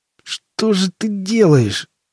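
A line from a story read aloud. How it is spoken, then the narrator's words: Groan. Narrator (Russian): простонал Боб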